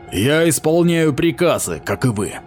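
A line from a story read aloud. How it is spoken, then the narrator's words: Snorted. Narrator (Russian): капитан фыркнул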